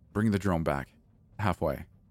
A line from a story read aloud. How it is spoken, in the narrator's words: she said sternly